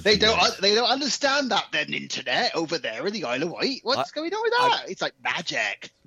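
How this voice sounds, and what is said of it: Put-on rural yokel English accent. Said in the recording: “it's the standard yokel accent. It's quite good.”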